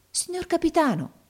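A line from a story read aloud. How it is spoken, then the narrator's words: Boy's amazed exclamation. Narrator (Italian): esclamò il ragazzo meravigliato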